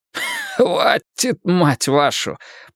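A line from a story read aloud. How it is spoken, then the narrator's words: Coughing synthetic voice. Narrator (Russian): прокашлял синтетик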